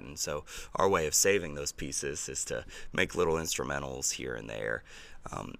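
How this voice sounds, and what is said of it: Strained, failing voice. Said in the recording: “my voice is ... so going right now.”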